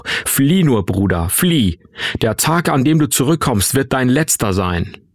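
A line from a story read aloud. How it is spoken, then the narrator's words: Roaring upward. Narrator (German): brüllte er zu mir hoch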